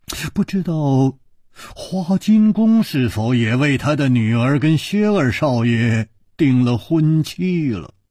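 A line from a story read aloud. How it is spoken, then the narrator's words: Murmur. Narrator (Chinese): 楚留香……喃喃地说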